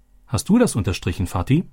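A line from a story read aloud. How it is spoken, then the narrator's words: Plain question. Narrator (German): fragte Robby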